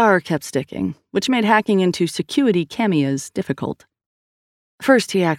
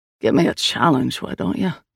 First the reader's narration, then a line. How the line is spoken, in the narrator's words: Liam grumbled